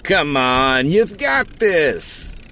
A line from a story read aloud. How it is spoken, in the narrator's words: Barney yelled